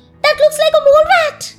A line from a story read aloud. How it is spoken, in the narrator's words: beaming, and exclaimed